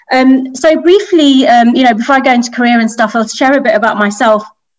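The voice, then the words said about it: British English accent. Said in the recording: “You may take away from my accent. I'm from the UK.”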